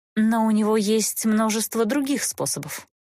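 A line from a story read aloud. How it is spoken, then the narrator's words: Sighing. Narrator (Russian): вздохнула Эста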